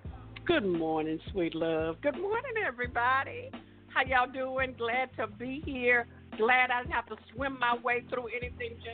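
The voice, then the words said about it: Neighborly Southern twang. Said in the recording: “she also brings that just neighborly southern twang to the show”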